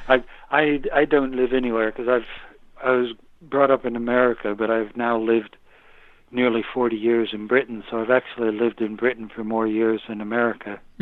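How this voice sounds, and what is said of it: Mild American accent. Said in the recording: “I can hear an accent, ... It's not so strong. ... most people think I'm Canadian ... I still say them with my American accent.”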